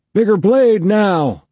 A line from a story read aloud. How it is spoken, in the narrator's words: DeWitt shouted